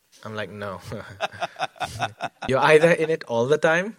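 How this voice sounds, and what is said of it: Put-on Indian accent. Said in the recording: “I don't know why I'm doing an Indian accent.”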